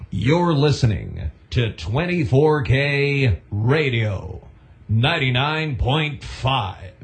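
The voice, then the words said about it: Older-sounding, drawn-out radio announcer voice. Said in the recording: “do your old school voice ... A little bit older ... you have to prolong it”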